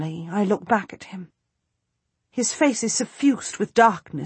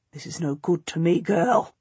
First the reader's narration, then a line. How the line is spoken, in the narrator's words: says, his voice very low